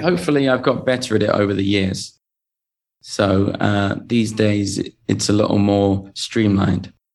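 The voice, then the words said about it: English accent. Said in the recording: “the English accent is delightful”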